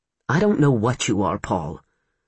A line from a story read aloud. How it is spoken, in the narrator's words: Mitch said wearily